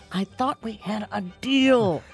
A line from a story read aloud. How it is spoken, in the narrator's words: he leans towards the pastor and hisses